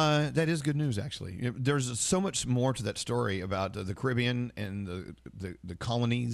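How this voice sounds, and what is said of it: Usual voice. Nothing is said of it.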